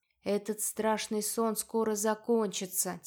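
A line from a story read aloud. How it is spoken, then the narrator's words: Quiet promise. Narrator (Russian): тихо пообещала я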